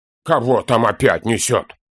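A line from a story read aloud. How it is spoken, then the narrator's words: Grumbling through teeth. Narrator (Russian): Сквозь зубы проворчал Торин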